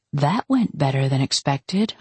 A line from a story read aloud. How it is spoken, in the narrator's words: I murmured finally